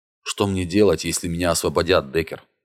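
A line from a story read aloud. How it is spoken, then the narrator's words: Hollow, muffled question. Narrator (Russian): глухо спросил он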